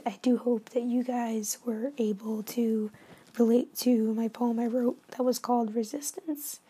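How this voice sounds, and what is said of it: Hoarse, nearly lost voice. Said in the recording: “I screamed like I was being murdered, and now I have no voice”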